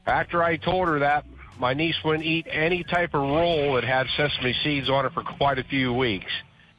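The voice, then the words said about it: Delaware County Philadelphia-area accent. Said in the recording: “where are you from? Like, are you from Delco? ... that accent ... it's like the most interesting accent I've ever heard ... I think it's like Delco.”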